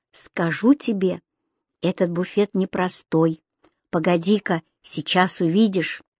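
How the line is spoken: Quiet. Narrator (Russian): тихо сказал

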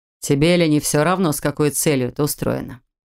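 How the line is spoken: Rude question. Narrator (Russian): Грубо поинтересовался мэр

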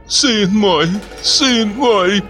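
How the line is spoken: Moaning. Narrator (Russian): простонала Мариам

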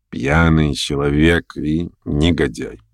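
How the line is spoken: Reluctant mutter. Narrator (Russian): пробормотал как бы нехотя Шатов

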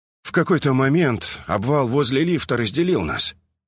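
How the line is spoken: Sad smiling voice. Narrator (Russian): грустно улыбнулся Омега

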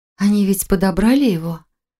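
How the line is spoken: Anxious sigh. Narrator (Russian): Марина взволнованно вздохнула

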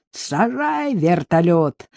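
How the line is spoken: Yelled. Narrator (Russian): заорал

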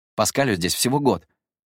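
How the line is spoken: Nonstop rapid chatter. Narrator (Russian): без остановки тараторил Люмьер

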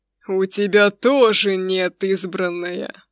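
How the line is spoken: Growling god. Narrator (Russian): прорычал бог

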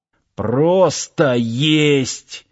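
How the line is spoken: Growled. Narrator (Russian): зарычал Сошин

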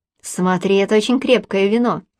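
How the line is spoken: Warning. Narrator (Russian): предупреждает Яиром

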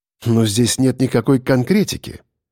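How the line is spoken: Dry, slightly irritated. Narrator (Russian): сказал я сухим тоном, но с ноткой раздражения

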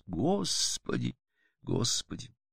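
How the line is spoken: Tearful, contrite muttering. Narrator (Russian): Кристина с покрасневшими глазами, сокрушенно бормоча себе под нос

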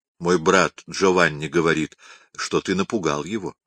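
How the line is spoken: Soft, gentle. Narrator (Russian): она мягко сказала Микеланджело

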